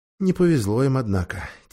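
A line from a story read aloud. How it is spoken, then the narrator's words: Quiet. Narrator (Russian): тихо сказал Дигори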